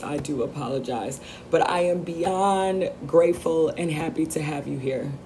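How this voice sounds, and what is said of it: Voice sounds rough. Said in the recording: “You have to excuse my voice this week. ... So yes, excuse my voice.”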